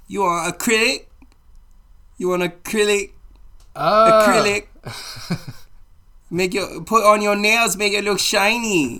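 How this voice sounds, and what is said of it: Put-on Chinese accent. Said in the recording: “a little racist impression of a pedicurist ... my Chinese accent was probably shit anyway ... it sounded a little something like”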